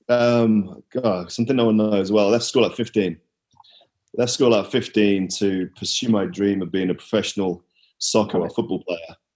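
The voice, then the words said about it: Distinctive accent. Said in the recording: “you have the best accent of any of my friends that I know... Kudos to you on your accent.”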